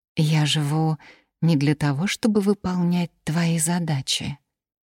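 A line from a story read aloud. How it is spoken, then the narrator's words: Plain. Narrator (Russian): сказала Элизабет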